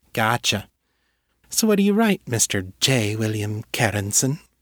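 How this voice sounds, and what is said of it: Mock upper-class accent. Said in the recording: “She put a little imitation of an upper-class accent into the last bit.”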